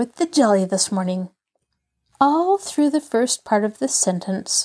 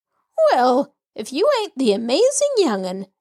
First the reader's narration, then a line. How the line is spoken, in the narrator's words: she cried